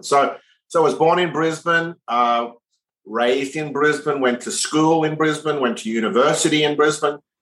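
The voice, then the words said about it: Mild Australian accent. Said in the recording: “that's not an American accent... it's an Australian accent, though all my Australian friends think it's not as Australian as it used to be, and all my American friends think I'm English”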